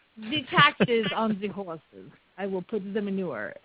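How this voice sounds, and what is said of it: Put-on French accent. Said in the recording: “I don't have a French accent. I do. It's awesome.”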